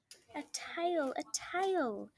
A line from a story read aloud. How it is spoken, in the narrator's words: shouted both possums at once